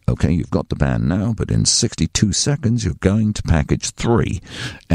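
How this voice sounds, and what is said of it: Put-on English accent. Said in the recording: “Don't know why the producer had an English accent.”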